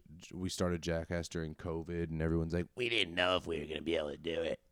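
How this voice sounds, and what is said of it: Throat-straining impression of another person. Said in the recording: “My perfect impression of Steve-O that really rips my throat in half.”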